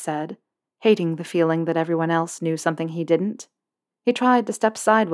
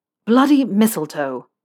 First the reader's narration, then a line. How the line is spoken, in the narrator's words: Malfoy spat the words out